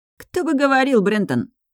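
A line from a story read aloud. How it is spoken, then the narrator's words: Snapping retort. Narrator (Russian): огрызнулся Люций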